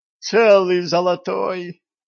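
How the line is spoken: Moaning. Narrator (Russian): застонала купчиха

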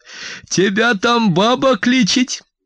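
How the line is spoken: Loud joyful female exclamation. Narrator (Russian): радостно и громко воскликнула она

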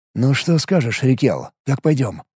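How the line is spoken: Whispered. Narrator (Russian): шепотом произнес я

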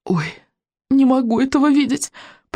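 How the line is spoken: Moaning. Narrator (Russian): простонал Рыбьенок

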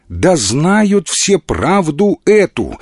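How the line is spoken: Irritated assurance. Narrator (Russian): раздраженно заверила Вера

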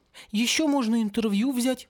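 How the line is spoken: Timid suggestion. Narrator (Russian): робко предложил он

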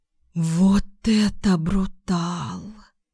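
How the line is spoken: Admiring breathless exclamation. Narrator (Russian): выдохнула Ленка восхищенно

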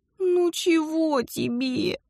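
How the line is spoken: Exhausted groan. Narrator (Russian): Простонала, чувствуя себя артритной клячей под рыцарем в полном доспехе

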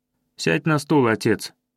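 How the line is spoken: Weary son. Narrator (Russian): устало сказал сын

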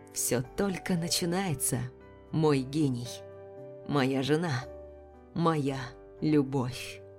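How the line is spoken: Private whisper. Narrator (Russian): прошептал так, чтобы слышала только я

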